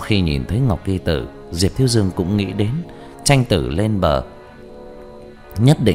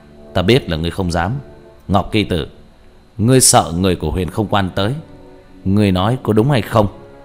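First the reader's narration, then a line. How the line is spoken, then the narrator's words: Loud laughing. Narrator (Vietnamese): Diệp Thiếu Dương cười to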